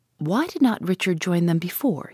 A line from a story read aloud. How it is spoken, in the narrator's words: he asks